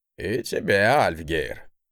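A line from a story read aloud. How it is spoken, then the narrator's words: Wry grunt. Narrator (Russian): хмыкнул тот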